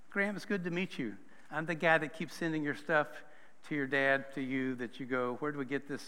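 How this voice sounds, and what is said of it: Non-local regional accent. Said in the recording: “You may pick up on the accent at some point that I'm not from around here, and that doesn't mean Pittsburgh.”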